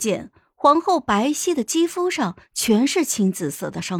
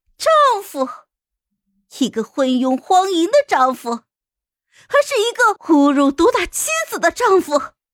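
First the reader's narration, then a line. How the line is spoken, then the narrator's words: Wild laugh, hoarse shout. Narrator (Chinese): 突然肆无忌惮的大笑了起来，嘶声喊道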